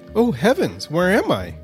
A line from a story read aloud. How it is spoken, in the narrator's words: exclaimed